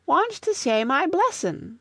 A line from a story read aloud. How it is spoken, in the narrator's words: whined Toddy